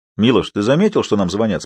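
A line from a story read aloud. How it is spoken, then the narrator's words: Plain. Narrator (Russian): спросил я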